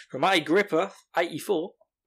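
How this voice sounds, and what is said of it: Put-on Australian accent. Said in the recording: “I've got to say that with an Australian accent.”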